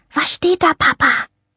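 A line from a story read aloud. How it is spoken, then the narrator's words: Child's whisper. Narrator (German): wisperte sie, denn Frieda war erst 5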